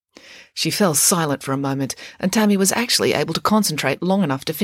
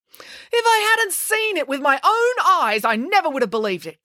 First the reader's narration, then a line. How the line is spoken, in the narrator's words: cried Mum